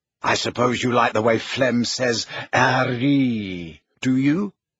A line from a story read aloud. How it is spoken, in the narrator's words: asked Ginny scornfully